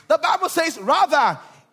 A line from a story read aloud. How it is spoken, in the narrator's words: he cried out so much more